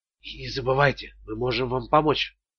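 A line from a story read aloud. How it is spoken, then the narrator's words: Whispered farewell. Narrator (Russian): прошептала О'Халлинан на прощание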